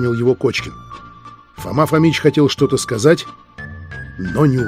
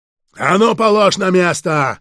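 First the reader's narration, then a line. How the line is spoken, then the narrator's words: Sudden yell, lying man. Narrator (Russian): вдруг заорал лежащий на кровати человек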